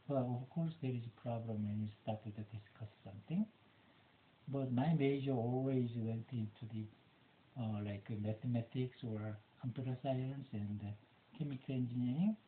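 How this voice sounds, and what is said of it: Non-native English accent. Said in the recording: “Because of my accent ... since I couldn't fix my accent”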